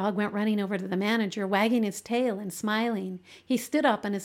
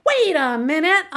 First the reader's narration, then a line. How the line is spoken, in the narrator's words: I hollered